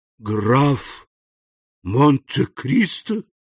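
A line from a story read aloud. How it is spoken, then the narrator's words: Horrified exclamation. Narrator (Russian): в ужасе воскликнул Данглар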